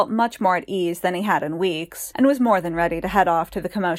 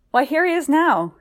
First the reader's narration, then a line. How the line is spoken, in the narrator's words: he cried